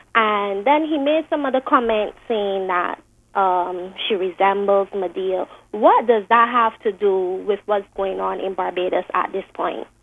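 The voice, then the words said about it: Young-sounding voice. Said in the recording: “You sound very young.”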